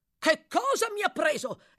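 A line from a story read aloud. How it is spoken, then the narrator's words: Exclaimed. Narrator (Italian): esclamò l'altro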